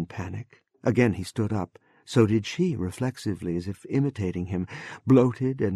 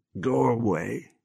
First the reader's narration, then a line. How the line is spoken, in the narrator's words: said thickly